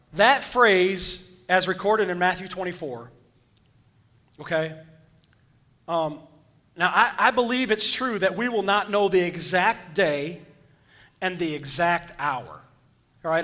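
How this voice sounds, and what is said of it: Hoarse, strained voice. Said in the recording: “I am losing my voice again. You guys notice this? ... you're just going to have to hear me hoarse”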